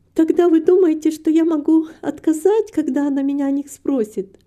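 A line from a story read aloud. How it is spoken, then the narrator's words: Happy question. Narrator (Russian): радостно спросила Рита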